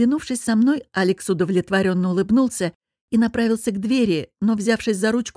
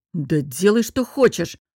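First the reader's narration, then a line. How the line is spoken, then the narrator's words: Snapping. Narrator (Russian): огрызнулся он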